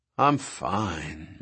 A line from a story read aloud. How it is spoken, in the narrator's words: Malcolm said in a dreamy voice